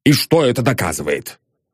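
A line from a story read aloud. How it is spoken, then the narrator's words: Irritated question. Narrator (Russian): раздраженно спросил Сыровяткин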